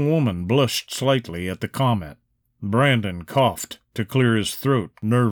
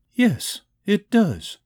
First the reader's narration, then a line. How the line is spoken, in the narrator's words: said coolly